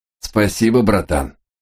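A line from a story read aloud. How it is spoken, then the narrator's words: Shout. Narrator (Russian): таракан крикнул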